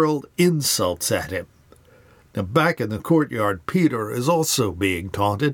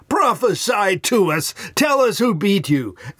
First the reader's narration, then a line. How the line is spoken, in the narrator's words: They mock him by screaming